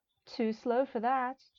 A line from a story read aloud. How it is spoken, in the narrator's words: I said teasingly